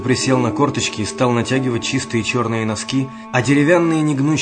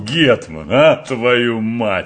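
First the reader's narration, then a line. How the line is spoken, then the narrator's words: Growled. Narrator (Russian): рычал Мышлаевский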